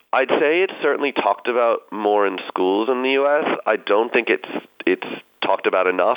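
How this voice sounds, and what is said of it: American accent. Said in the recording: “you're picking up on my accent. I grew up in the U.S.”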